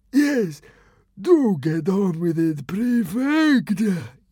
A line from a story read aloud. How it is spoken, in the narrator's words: yawned the fat consul